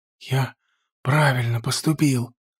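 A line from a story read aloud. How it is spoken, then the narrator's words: Joyful whisper. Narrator (Russian): радостный шепот Джонса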